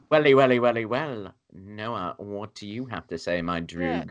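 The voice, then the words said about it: Put-on British accent. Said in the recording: “that was the sexiest British accent I think I've ever heard”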